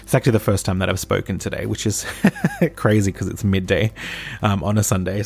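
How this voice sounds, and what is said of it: Strained, fading voice. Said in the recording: “Sounds like I'm going to cry, but no, I'm just losing my voice.”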